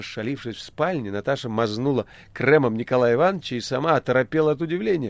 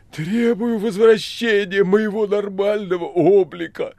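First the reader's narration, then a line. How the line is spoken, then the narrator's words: Frenzied pleading wheeze, grunting. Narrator (Russian): Вдруг не то исступленно, не то моляще прохрипел и захрюкал Боров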